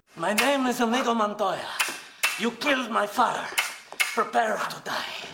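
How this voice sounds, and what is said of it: Inigo Montoya accent impression. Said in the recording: “they both want to take turns playing like Inigo Montoya ... they're doing like the accent and everything”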